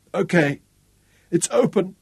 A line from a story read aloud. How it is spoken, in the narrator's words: he sobbed